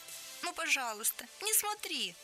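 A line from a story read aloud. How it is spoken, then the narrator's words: Pleading. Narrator (Russian): взмолился Салмон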